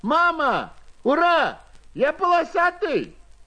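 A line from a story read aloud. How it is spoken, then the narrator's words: Shouting. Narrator (Russian): закричал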